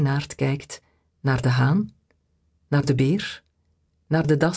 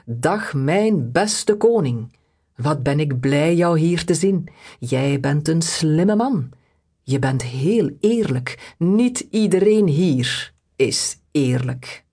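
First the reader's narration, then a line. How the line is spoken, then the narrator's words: Loud voice. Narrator (Dutch): Reinaard zegt met luide stem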